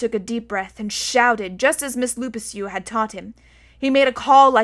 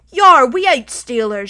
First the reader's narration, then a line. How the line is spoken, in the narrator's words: shouted the Emperor of China